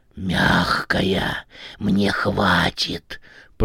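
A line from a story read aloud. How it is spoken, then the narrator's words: Eerie growl. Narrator (Russian): прорычала жутко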